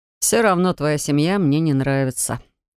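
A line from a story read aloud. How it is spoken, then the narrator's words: Scoffing. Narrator (Russian): хмыкнул парень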